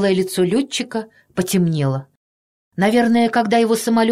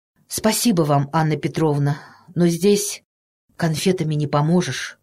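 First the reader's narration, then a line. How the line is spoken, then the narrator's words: Quiet, trembling voice. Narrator (Russian): тихо сказал летчик, и его смелые губы дрогнули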